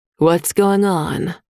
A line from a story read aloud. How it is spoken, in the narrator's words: Mom said, her voice even, not angry